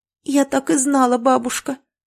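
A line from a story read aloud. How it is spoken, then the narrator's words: Sighing girl. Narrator (Russian): Вздохнула девочка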